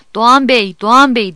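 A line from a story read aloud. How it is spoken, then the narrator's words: Shouting angrily, laughing. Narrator (Turkish): diye bağırıyor, kızıyor, gülüyordu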